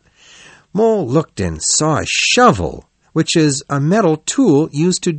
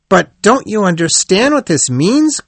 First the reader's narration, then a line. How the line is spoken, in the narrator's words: cried the rat